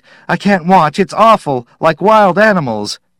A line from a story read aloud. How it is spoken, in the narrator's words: Judith shrieked